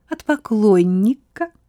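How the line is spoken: Girlish giggle. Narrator (Russian): ответила Одри и по-девичьи хихикнула

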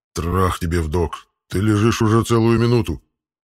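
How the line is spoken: Indignant growl, pet. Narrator (Russian): Возмущенно прорычал питомец

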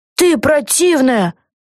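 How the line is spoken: Shouting in face. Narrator (Russian): крикнула Люси прямо ей в лицо

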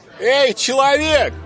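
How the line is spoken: Drunken shouting. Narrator (Russian): пьяно закричала Виолетта по прозвищу Пуля

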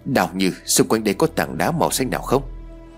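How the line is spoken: Quiet question. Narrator (Vietnamese): Tôi nhỏ giọng hỏi

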